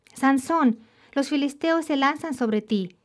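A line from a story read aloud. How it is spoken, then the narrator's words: Shouted. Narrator (Spanish): Una vez más gritó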